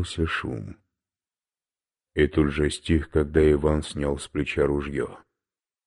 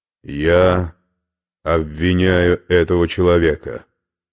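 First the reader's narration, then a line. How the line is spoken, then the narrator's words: Loud. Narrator (Russian): сказал громко, так что вы слышали все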